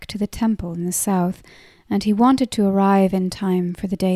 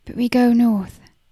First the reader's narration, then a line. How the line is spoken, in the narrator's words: said in a tight voice